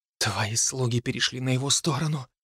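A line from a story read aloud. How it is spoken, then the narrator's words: Whispered. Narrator (Russian): прошептала Софи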